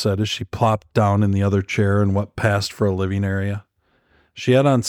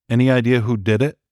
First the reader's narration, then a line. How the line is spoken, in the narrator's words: she asked